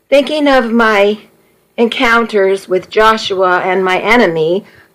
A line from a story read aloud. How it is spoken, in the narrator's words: I said